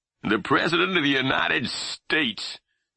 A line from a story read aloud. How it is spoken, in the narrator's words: Pap said, his voice heavy with disgust